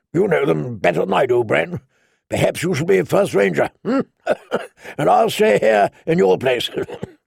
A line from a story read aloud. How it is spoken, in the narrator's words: Benjen Stark had laughed and said